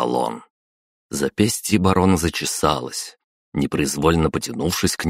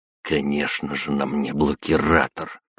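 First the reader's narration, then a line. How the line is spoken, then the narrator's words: Through gritted teeth. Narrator (Russian): процедил он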